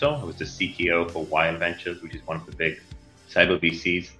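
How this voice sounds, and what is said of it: Israeli-accented English. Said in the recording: “I have an Israeli accent”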